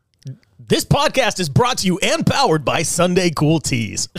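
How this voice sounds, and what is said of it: Announcer-style radio voice. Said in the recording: “You want me to go into a radio voice?”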